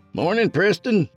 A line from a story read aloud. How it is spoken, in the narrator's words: Walter called out to him